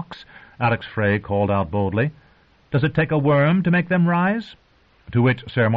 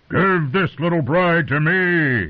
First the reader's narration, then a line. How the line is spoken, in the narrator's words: he bellowed